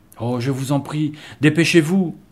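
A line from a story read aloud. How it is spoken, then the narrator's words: Girl exclaiming. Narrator (French): s'écria l'une des filles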